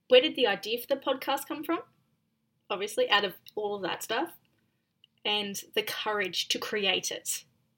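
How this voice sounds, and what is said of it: Noticeable foreign accent. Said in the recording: “I'm actually getting used to your accent”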